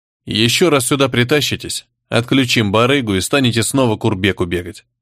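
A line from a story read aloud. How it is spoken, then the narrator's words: Cold statement. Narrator (Russian): холодно заявил Майна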